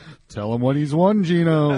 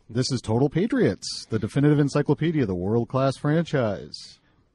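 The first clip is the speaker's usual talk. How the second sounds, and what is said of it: Announcer-style radio voice. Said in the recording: “You should be on the radio. You have a great voice. ... That's my radio voice.”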